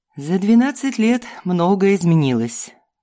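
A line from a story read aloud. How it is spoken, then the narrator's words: Sighing. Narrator (Russian): вздохнул он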